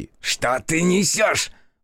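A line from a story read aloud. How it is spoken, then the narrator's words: Roar. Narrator (Russian): взревел Карасу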